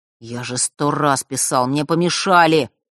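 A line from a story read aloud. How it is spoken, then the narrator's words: Grumbling. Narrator (Russian): пробурчал тот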